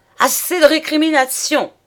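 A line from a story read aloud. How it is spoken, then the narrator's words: Exclaiming. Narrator (French): s'écria-t-il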